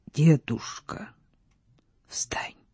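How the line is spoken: Hollow muffled voice. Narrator (Russian): сказал он глухо

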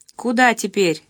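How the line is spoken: Plain question. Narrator (Russian): спросил Ковалев

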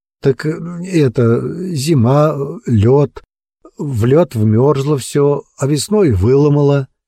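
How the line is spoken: Trembling voice. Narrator (Russian): ответил дрожащим голосом

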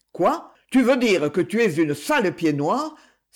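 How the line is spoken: Exclaimed. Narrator (French): s'exclama-t-il

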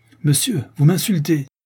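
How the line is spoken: Enraged young man's outcry. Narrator (French): s'écrie le jeune beau, devenant pourpre de confusion et de rage

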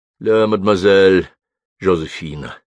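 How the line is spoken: Quiet call. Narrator (Russian): тихо окликнул ее

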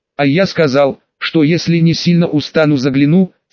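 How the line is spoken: Calm. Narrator (Russian): спокойно сказал я

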